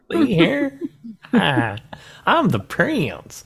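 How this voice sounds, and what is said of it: Weird southern accent with 1930s New York. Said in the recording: “He's got a weird southern accent. ... a weird southern Romanian or Aldovia accent. ... with a little 1930s New York.”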